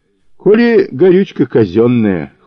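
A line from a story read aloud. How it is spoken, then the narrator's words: Wry snort. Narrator (Russian): хмыкнул Федор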